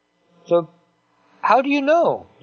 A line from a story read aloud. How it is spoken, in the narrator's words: pleaded Joe